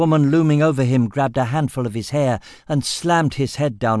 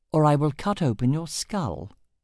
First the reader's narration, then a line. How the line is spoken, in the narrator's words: the augmenter said calmly